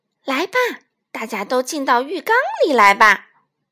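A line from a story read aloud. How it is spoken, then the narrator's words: Cheerful laughing whale. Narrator (Chinese): 大鲸鱼笑呵呵地说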